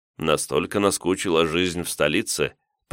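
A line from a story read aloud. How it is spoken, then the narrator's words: Knowing snort. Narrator (Russian): понимающе хмыкнул я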